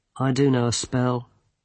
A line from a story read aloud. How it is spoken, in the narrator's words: he said wearily